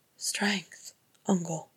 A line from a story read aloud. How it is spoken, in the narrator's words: he said softly